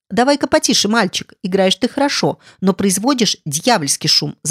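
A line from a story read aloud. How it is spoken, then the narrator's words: Shouted. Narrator (Russian): закричал дядя Джем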